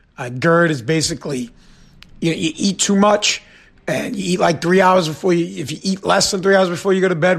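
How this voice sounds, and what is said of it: Hoarse, partly lost voice. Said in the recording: “My voice is a little bit gone... So my voice is a little messed up”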